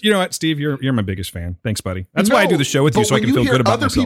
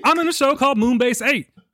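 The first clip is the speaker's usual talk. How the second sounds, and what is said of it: John C. Reilly impression. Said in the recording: “I'm just John C. Reilly. I don't know. This is how I sound. ... your best impersonation”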